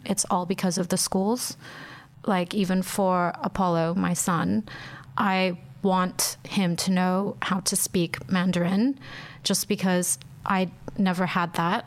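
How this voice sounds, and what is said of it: American accent. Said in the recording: “we have the American accent.”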